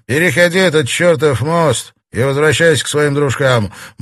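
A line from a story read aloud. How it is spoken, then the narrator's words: Grumbled. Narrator (Russian): буркнул Смит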